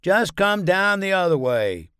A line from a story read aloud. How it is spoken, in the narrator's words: Chris called out to him